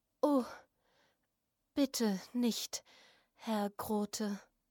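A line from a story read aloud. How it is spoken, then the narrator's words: Whispered. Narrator (German): Fräulein Täfelein flüsterte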